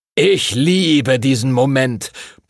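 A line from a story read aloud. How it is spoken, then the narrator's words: Booming, boisterous. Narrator (German): polterte Master Duncan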